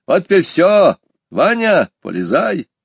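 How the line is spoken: Cheerful shout. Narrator (Russian): Петя весело крикнул

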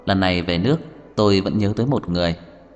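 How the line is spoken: Smiling calm voice. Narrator (Vietnamese): Loren mỉm cười, mới nói

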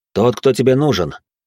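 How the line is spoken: Calm. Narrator (Russian): спокойно произнес я

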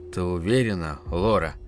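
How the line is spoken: Quiet question. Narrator (Russian): тихо спросил отец

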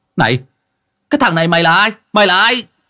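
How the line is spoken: Young man shouting. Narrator (Vietnamese): Một thằng thanh niên cháu ông Toan quát lên

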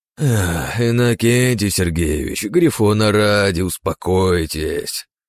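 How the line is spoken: Sighing. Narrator (Russian): вздохнул Рокотов

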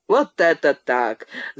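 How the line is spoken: Laughing. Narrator (Russian): засмеялся Нищеретов

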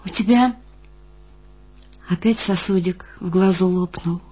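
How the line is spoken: Said quietly. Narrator (Russian): тихо сказала я

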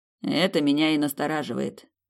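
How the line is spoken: Gloomy. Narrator (Russian): мрачно произнес принц

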